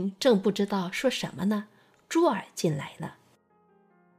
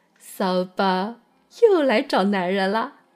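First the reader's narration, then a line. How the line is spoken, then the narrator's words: Giggling. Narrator (Chinese): 红玲笑嘻嘻地说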